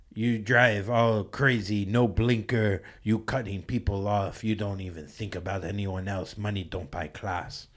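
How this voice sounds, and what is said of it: Put-on Russian or Armenian accent. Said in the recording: “He was like a Russian guy ... be Armenian ... like he was like right from the movie Rounders”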